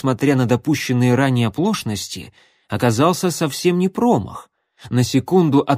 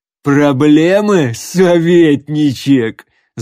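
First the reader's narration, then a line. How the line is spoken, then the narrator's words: Loud laughing. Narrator (Russian): захохотал Громила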